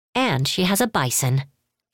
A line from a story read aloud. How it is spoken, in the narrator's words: Kiyoshi snapped